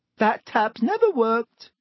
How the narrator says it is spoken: said Myrtle brightly

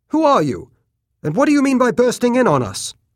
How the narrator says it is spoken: he demanded harshly

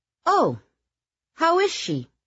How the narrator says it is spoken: Eleanor asked in a merry tone

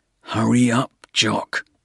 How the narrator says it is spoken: Porter said under his breath

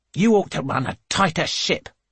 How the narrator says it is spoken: she snaps

